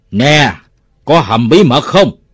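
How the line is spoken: Shouting in face. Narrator (Vietnamese): Nó thét vào mặt ông Bảy

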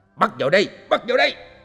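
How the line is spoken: Shouted command. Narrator (Vietnamese): lại nghe tiếng quát

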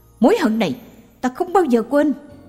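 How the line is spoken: Shouting. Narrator (Vietnamese): Anh ta hét lên

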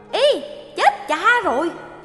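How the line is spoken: Muffled annoyed cry. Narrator (Vietnamese): Tôn giả này bực tức và chợt bụm miệng la lên

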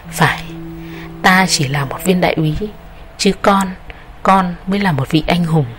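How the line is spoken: Old officer, warm and gentle. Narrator (Vietnamese): Vị quân nhân đầu bạc kia đáp bằng một giọng rất thân thuộc và nhẹ nhàng

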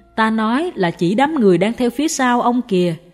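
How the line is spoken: Smiling. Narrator (Vietnamese): Sư phụ mỉm cười nói tiếp

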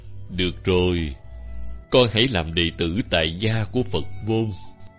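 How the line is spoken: Smiling. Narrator (Vietnamese): hòa thượng mỉm cười bảo

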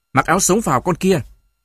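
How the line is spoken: Old woman shouting. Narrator (Vietnamese): Bà tôi quát mẹ tôi

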